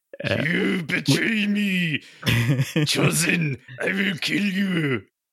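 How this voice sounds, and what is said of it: Gravelly, rasping villain voice. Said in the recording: “the gravelly voice... like the Batman voice... throat cancer”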